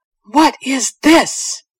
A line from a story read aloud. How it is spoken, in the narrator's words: his voice thunders